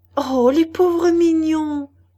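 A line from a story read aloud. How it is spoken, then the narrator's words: Exclaimed. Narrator (French): s'écria Cécile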